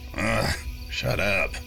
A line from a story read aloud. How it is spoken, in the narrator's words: he grunted, more annoyed than scared